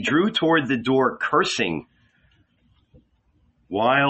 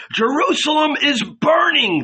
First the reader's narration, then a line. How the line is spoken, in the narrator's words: shouted